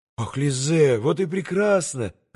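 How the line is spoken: Joyful exclamation. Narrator (Russian): радостно воскликнул Алеша

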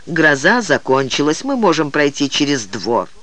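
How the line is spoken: Detached flat tone. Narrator (Russian): тем же безучастным тоном, он заметил

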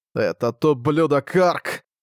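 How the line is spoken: Growling. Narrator (Russian): Райден не переставал рычать

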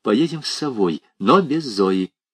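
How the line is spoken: Quiet. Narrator (Russian): Рина тихо сказала Варе

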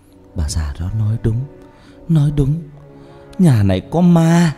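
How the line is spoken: Moaning. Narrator (Vietnamese): Bà Loan rên rỉ

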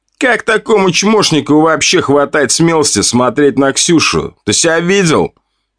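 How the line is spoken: Mocking laughter. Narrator (Russian): Смеялся кучерявый блондин

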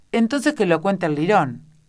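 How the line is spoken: Group shouting. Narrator (Spanish): opinaron gritando

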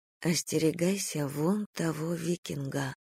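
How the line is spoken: Whisper. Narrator (Russian): шепнула

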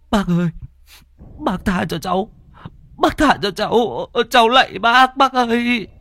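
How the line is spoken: Whimpering, tearful child. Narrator (Vietnamese): Thằng Thắng mếu máo

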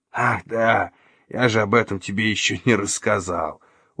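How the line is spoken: Smirking. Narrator (Russian): ухмыльнулся Флинн

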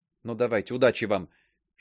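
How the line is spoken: Whisper. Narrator (Russian): шепнула

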